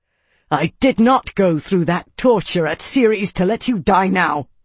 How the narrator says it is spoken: snarl

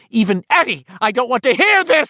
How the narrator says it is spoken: she cried

